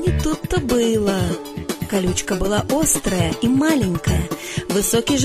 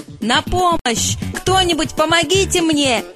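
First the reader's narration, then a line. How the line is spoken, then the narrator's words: Giraffe's shout. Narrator (Russian): закричал жираф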